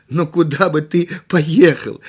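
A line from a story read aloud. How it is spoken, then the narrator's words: Laughing. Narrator (Russian): рассмеялся директор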